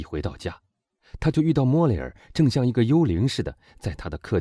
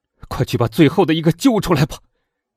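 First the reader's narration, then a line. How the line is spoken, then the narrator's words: Shouting. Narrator (Chinese): 他喊道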